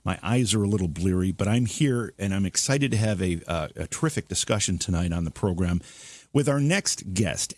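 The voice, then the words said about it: Slightly rough, hoarse voice. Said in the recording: “my voice is a little rough”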